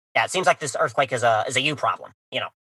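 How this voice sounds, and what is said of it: Imitates another person's voice. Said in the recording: “You do a really fantastic impression. He would totally say that too.”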